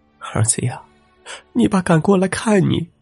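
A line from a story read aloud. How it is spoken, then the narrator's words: Mother crying on phone. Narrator (Chinese): 那边传来了母亲哭泣的声音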